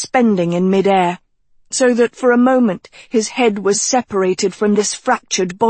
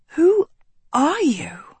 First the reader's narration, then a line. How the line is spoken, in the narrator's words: Sophie breathed